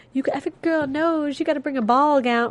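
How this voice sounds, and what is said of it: Put-on Southern accent. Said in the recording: “she starts talking in that southern accent.”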